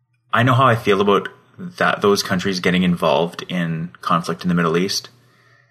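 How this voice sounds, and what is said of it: Strong Canadian accent. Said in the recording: “I'm pretty sure you just said a boat ... I am Canadian ... In the most Canadian accent of all time”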